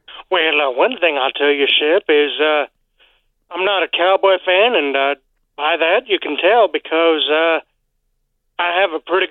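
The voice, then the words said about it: Southern US accent. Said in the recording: “did that accent just get a little more southern when you started speaking?”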